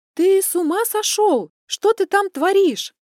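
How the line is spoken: Puzzled shout from window. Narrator (Russian): Недоуменно крикнула я, свесившись из окна

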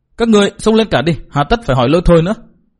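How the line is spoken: Resentful, sullen. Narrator (Vietnamese): Nàng ta hậm hực nói

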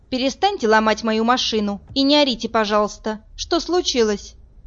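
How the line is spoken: Stern. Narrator (Russian): Марина сурово сказала

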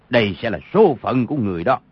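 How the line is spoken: Shout. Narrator (Vietnamese): quát

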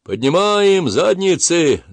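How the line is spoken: Booming shout. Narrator (Russian): зычно закричал он

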